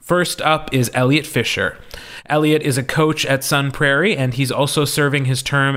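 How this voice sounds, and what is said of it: Wisconsin accent. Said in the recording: “when I say the word coach, you can really hear my Wisconsin accent”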